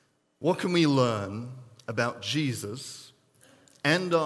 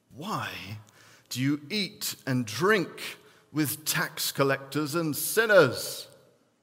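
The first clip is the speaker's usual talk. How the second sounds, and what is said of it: Put-on English accent. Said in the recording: “I'd like to throw in a little bit of extra English accent there.”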